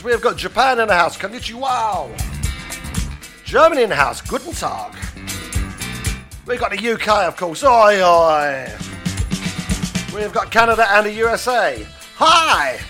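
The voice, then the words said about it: Mock accents in greetings. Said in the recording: “You didn't know I was good at accents”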